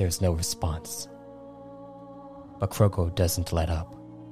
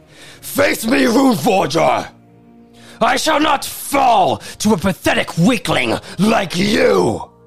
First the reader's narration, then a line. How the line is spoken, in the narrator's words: With no emotional restraint, Krogo screams